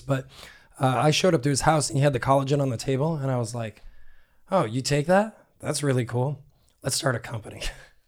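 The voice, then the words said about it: Hoarse, strained voice. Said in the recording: “my voice is terrible ... Thank laryngitis for this”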